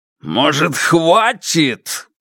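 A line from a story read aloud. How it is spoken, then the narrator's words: Roared. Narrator (Russian): проревел он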